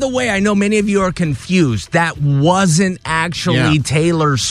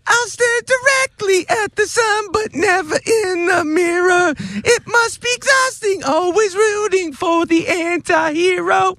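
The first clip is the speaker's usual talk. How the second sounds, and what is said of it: Imitates another person's voice. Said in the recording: “pseudo Taylor Swift ... doing a Taylor impression. I know it's dead on.”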